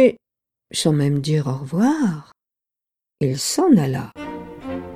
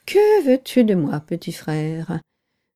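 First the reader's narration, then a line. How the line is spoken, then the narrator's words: Sigh. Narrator (French): soupira le nuage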